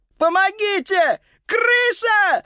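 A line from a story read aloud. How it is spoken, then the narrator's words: Panicked shriek. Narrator (Russian): завизжал Карл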